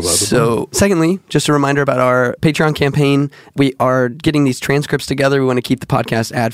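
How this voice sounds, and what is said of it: Hoarse voice, cracking from illness. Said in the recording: “my voice is cracking a lot. And that's not because I'm going through puberty ... I've just been sick ... It may not sound like me”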